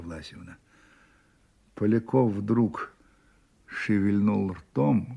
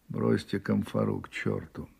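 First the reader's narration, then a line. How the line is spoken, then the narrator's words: Dry, weak, wounded. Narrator (Russian): раненый … сухо слабо выговорил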